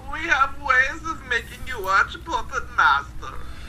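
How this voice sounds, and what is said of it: Exaggerated bad German accent. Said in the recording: “I love the bad German accent ... We should do the whole movie review like this”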